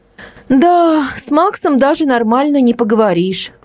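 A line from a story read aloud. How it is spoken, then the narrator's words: Sigh. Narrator (Russian): вздохнула Настя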